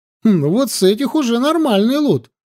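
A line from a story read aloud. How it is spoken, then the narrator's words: Cheerful reply. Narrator (Russian): радостно ответил Сашка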